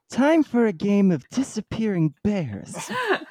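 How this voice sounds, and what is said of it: Imitates another person's voice. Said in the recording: “That was a very good impression.”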